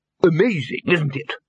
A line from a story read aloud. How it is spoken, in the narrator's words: said the lecturer happily